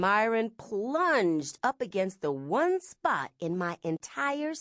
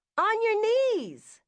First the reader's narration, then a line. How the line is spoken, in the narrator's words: shouted